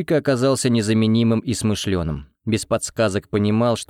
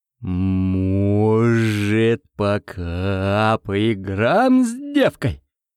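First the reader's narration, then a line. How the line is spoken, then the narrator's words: Drawling, very slow. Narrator (Russian): Другой мужик странно тянул гласные и говорил ужасно медленно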